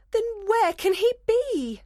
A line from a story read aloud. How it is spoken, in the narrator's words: Hermia cried desperately